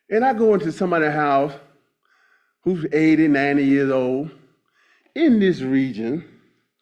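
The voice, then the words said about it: Slight North Carolina country accent. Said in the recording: “big old country boy from North Carolina, I had a little accent, I still got it.”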